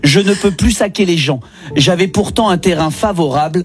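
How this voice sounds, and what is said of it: Regional French accent. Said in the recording (French): “j'ai un accent ... je le lis avec mon accent”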